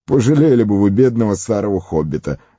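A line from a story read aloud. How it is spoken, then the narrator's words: Laughing. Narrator (Russian): рассмеялся Фродо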